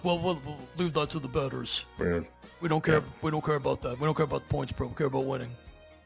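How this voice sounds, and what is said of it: Imitates another person's voice, poorly. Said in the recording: “a bad impression”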